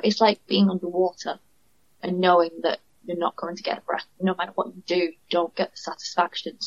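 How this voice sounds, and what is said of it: Northern English accent. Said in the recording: “you can tell by my accent, I'm from the north”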